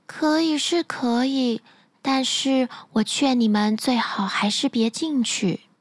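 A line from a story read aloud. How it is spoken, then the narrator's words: Sighing, dejected. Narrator (Chinese): 姑娘唉声叹气地说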